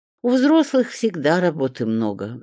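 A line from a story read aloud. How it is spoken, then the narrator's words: Sighed. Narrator (Russian): вздохнула Светка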